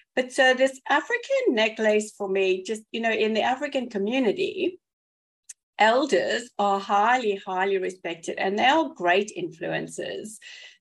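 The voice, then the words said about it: South African English accent. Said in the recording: “people have worked out from my accent by now that I hail from South Africa originally”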